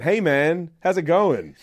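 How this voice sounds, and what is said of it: Poor attempt at American accent. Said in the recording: “Could I do American? I don't know now. No, I can't. ... accents are not my strong point”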